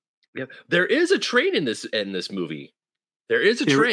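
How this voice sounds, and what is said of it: Usual voice. Nothing is said of it.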